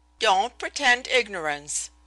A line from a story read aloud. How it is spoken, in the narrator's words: she snapped